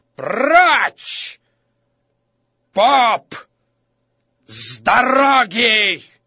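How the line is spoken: Furious shout. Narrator (Russian): Лицо справедливого перекосилось от злости, и он закричал

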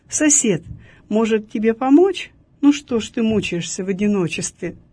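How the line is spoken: Calm after cooling down. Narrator (Russian): Немного остыв, он спокойно сказал вору

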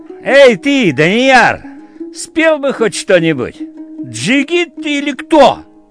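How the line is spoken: Breaks off singing, shouts. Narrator (Russian): оборвала песню и крикнула

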